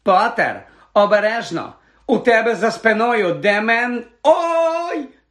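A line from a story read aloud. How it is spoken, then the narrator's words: Shriek. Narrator (Ukrainian): Заверещала Лаванда Браун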